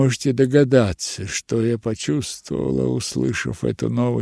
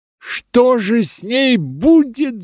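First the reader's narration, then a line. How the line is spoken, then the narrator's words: Shouted. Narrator (Russian): закричала я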